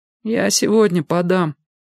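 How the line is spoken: Dejected voice. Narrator (Russian): упавшим голосом сказал Валька

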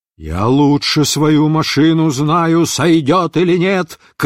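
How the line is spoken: Pilot shouting. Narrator (Russian): крикнул летчик

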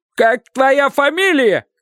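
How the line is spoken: Coachman's shout. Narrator (Russian): кричал кучер

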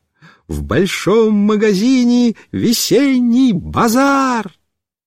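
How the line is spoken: Very loud desperate shouting. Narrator (Russian): Она ужасно громко кричала

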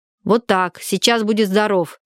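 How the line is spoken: Low angry voice. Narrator (Russian): низким сердитым голосом сказала Варя

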